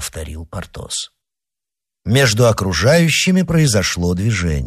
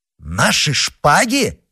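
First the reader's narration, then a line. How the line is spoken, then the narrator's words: Exclaiming. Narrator (Russian): воскликнул Д'Артаньян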